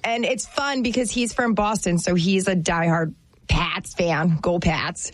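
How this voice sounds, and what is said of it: Put-on Boston accent. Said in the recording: “So that's my Boston accent. Isn't it good? ... That was the best Boston accent I've ever heard.”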